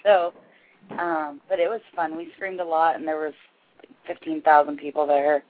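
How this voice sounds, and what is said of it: Slightly raspy voice. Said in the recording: “My voice is a little raspy,”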